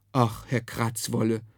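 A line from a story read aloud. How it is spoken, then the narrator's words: Mother murmuring. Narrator (German): murmelte die Mutter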